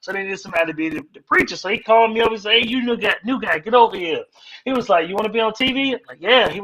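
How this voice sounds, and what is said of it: Usual voice. Nothing is said of it.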